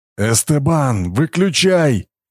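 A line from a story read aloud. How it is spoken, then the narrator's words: Shouting through pain. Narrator (Russian): крикнул Брахма, превозмогая боль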